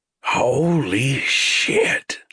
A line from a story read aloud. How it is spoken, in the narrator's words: Shovel hissed